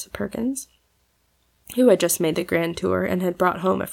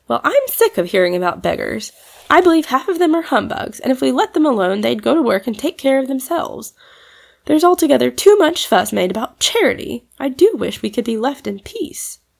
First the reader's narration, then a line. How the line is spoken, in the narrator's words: Trix said pettishly